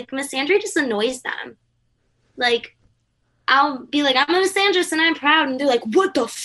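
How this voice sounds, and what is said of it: Usual voice. Nothing is said of it.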